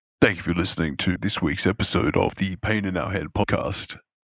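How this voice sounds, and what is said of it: Unusually deep, low voice. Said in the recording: “Got the Barry White going on... deep voice going on? Why does it do that?... we're going to do this outro with a deep voice”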